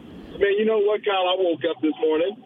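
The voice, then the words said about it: Happy, upbeat voice. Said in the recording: “Why do you sound so happy?”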